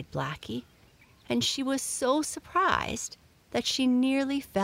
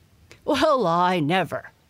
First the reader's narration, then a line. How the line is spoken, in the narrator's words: barked Don